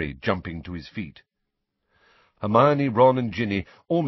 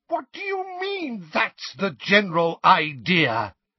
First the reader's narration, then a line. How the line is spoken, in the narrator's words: Weasley shriek